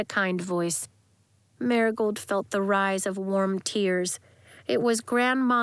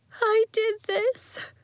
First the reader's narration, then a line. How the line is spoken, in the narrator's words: she wailed